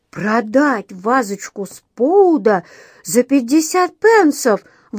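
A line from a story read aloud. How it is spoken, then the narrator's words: Incredulous exclamation. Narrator (Russian): воскликнул он, отказываясь верить своим ушам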